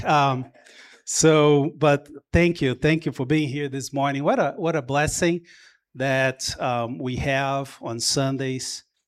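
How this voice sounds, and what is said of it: Brazilian-accented English. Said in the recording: “I could tell you were from Brazil ... that's as bad of an accent I have”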